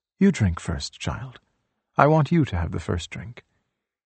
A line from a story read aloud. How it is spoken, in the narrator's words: Siddhartha answered in a soft voice